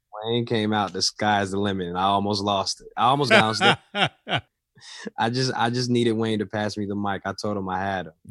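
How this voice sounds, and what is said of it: Worn-out, strained voice. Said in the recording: “my voice is spent”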